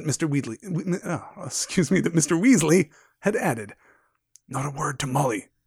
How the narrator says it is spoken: whispered

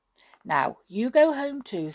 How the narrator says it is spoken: said the fat little man, patting Jinky kindly

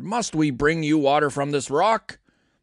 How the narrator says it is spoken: he shouted

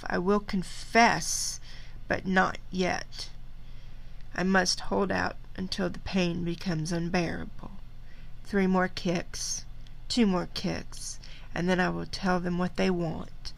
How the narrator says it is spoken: he feebly tried to compromise, when he said to himself

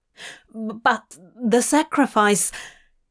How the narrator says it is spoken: Abraham stammered

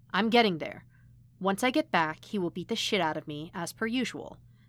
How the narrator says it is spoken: Matt said calmly

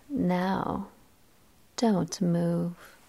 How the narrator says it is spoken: said quietly into his ear

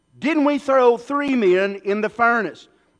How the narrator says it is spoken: Nebuchadnezzar in amazement and exclaimed for his advisors

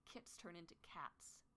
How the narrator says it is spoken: Thistleclaw growled

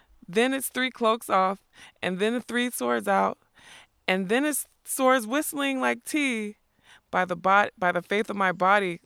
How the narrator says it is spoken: says Captain Cully

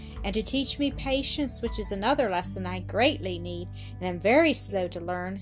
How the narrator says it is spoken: sighed Mildred

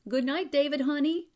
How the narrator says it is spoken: Marcia called out

